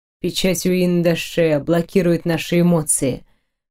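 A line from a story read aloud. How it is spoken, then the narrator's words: Muffled reply. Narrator (Russian): глухо ответил рыцарь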